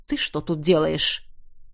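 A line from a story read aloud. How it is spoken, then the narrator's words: Growled. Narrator (Russian): При виде скромно сидящего у стеночки меня принц рыкнул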